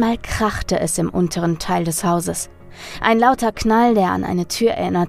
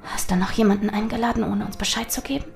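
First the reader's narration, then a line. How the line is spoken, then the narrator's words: Hissed. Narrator (German): zischte Charlotte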